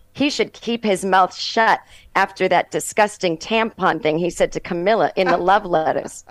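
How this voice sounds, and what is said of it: Boston accent. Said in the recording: “your mom's Boston accent”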